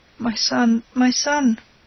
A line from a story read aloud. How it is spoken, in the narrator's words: she stammered, too weak